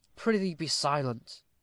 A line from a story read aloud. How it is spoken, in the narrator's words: whispered Luke